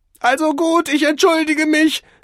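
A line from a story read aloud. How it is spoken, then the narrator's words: Shrieking man. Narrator (German): kreischte der Geschäftsmann aus Mailand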